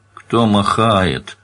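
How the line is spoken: Grumbled. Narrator (Russian): проворчал Ленке

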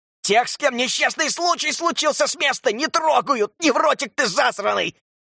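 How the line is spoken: Shouting. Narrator (Russian): закричал Экс

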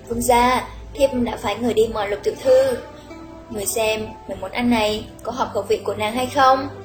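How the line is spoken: Smiling. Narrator (Vietnamese): Quận Vương Phi mỉm cười nói

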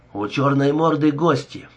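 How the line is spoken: Quick report. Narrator (Russian): быстро доложил Даллас

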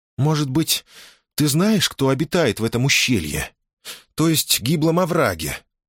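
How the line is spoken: Dejected voice. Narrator (Russian): упавшим голосом предположила она

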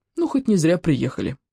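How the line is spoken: Sighing. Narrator (Russian): вздохнула Саня

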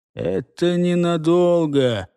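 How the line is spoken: Gloomy muttered drawl. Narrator (Russian): Мрачно протянул себе под нос Гортер

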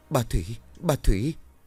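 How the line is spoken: Panicked breathless stammer. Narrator (Vietnamese): hoảng hốt, trong ngực đập lên thình thịch, hơi thở gấp gáp rồi lắp bắp giọng

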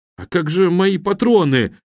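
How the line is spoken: Sobbing. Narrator (Russian): всхлипнул Гарик

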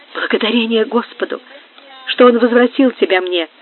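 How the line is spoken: Quiet exclamation. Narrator (Russian): воскликнула Амаранта тихим голосом

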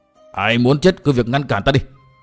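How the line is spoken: Frenzied yelling. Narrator (Vietnamese): mồm chỉ quát tháo như điên như khủng

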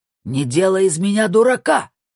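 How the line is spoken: Shouting. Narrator (Russian): кричал президент БКА

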